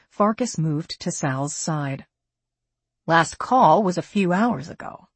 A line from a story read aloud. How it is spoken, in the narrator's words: she said softly